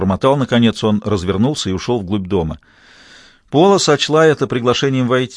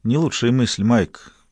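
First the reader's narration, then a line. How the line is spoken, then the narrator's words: Soft. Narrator (Russian): мягко проговорила Пола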